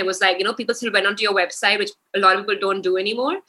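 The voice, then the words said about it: Fast speech. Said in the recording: “I'm talking too fast, ... I tend to do that.”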